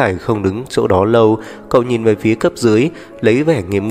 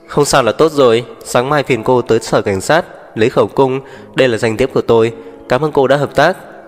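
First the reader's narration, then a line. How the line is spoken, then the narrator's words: Laughing. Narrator (Vietnamese): Tú Khải bật cười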